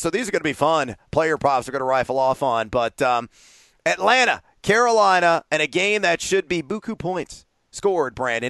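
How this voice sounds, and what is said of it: Slightly raspy voice. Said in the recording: “my voice has got a little raspy.”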